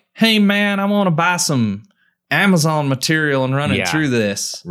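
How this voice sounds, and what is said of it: Put-on redneck accent. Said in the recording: “Why am I talking in a redneck accent?”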